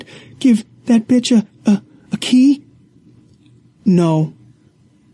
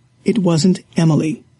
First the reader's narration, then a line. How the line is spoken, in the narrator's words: he said calmly